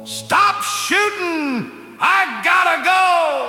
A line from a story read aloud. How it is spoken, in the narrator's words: shouted at them all